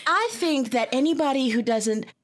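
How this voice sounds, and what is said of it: Put-on country accent. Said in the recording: “country accent”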